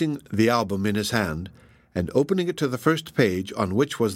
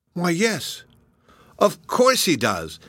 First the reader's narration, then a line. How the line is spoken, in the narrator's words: exclaimed Mark, startled at the resemblance he saw